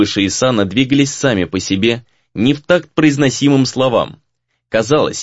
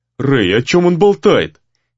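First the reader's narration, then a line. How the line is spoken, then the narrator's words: Unguarded exclamation. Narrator (Russian): воскликнул Гризли, видимо, забыв о том, где находится и кто говорит с ним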